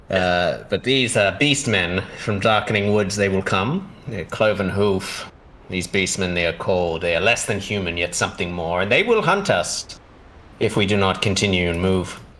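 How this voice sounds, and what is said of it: Badly put-on character accent. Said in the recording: “I'm just going to butcher these accents always”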